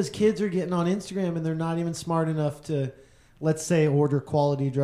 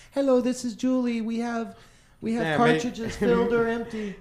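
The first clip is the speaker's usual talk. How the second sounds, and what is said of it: Robotic voice with put-on Chinese accent. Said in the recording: “Making the accent. ... that's a robot voice. It's a robot. ... Like, Chinese. ... That was a robot voice. ... Robot voice.”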